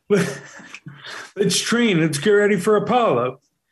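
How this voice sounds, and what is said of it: Sylvester Stallone impression. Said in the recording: “I'll do Sylvester Stallone.”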